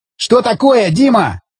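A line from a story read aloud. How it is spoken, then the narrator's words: Lieutenant shouting. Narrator (Russian): закричал лейтенант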